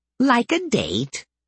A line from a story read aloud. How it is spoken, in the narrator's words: Bob piped up with a leer